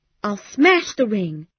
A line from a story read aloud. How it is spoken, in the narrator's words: cried